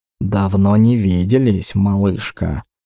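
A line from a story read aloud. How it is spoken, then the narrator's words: Barely voiced whisper. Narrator (Russian): прошептал, а скорее даже произнес он одними губами, чтобы услышала только я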